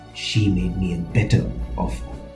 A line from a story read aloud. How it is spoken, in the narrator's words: The priest ... whispered